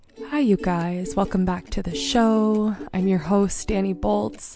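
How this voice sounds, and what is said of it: Congested, sick-sounding voice. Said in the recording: “I sound a little congesty. Obviously, I'm sick. ... Excuse my voice.”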